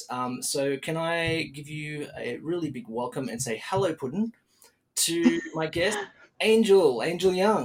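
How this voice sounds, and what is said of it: Australian accent. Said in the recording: “My Australian accent.”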